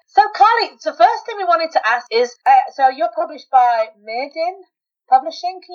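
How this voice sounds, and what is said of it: English accent. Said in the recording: “you're calling us from England. How exciting. My home country. ... I did recognise your accent ... we give it away. Even though I've lived here 20 years, it's still there.”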